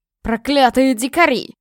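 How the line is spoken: Mage roaring. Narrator (Russian): взревел маг

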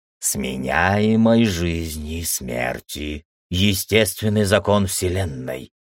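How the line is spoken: Old man muttering. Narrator (Russian): пробормотал старик

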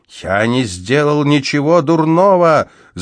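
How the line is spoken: Shouting. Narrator (Russian): закричал я им

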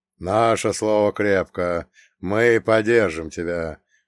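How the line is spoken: Old man's deep bass. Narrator (Russian): пробасил дед

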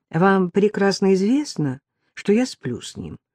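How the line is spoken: Calm remark. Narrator (Russian): спокойно заметила она

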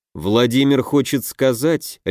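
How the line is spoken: Icy tone. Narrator (Russian): ледяным тоном произнес Дельвиг

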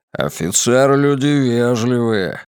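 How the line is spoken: Grumbling. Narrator (Russian): пробурчал Григориус

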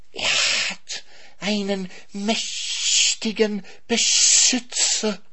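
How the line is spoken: Snake hissing. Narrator (German): zischte die Schlange

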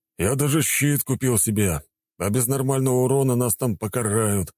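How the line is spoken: Sighing. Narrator (Russian): вздохнул воин

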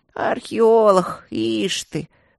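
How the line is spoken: Old men muttering. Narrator (Russian): забормотали старички

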